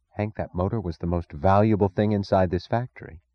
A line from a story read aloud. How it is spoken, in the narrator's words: said, her voice low